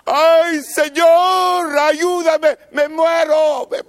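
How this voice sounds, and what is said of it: Shouting desperately. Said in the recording (Spanish): “estás gritando”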